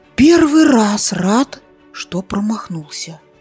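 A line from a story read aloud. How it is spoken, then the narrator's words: Relieved exhale. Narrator (Russian): с облегчением выдохнул Зарубик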